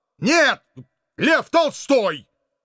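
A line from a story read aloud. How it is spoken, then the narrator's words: Stern bark. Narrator (Russian): Как можно строже рявкнул я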